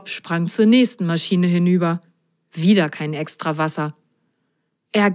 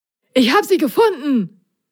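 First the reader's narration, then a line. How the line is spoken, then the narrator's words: Excited call. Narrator (German): rief Prop aufgeregt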